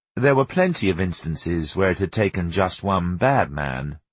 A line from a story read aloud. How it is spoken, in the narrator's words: Teddy said gloomily